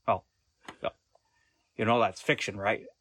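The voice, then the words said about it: Good impression of Jack Horner. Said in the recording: “you do an impression, and that's a really good impression of Jack Horner ... he's a very distinctive speaking style”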